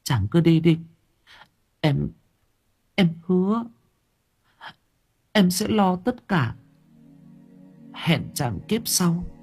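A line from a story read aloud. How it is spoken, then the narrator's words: Tearful, choked speech. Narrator (Vietnamese): Thúy Hạnh mếu máo thưa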